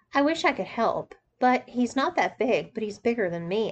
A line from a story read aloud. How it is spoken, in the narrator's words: said